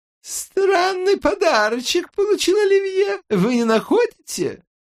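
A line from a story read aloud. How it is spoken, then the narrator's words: Old, shrill, uneven voice. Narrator (Russian): Старческий голос, пронзительный и неровный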